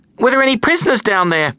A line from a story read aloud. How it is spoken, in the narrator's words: squeaked Amy